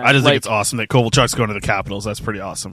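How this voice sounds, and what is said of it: Sick, rough voice. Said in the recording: “I am super sick right now ... My voice might sound a little worse for wear”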